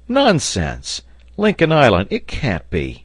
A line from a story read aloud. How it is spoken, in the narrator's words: cried Pencroft, who, in spite of the respect he felt for Cyrus Harding, could not prevent a gesture of incredulity